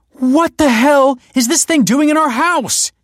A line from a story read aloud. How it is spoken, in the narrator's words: exclaimed